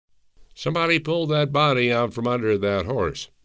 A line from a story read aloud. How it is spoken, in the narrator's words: shouted a man